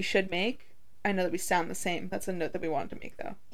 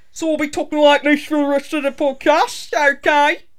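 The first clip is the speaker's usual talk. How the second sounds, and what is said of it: Put-on accent. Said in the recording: “going to be using an accent... I'm already putting on my accent. I am an actor, so I'm actually really good at accents.”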